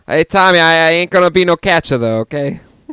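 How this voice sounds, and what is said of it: Bad put-on Boston accent. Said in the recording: “never do a Boston accent again ... It's pretty bad ... Fucking terrible ... It's Dick Van Dyke's Cockney accent bad”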